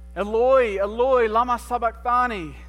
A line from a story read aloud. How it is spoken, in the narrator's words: Jesus cried aloud